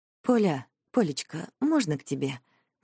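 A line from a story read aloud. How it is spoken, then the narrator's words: Hesitant question. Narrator (Russian): неуверенно спрашивает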